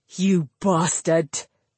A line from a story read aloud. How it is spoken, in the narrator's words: Rodri snarled